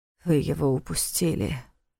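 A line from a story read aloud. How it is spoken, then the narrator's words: Breathed out. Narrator (Russian): выдохнул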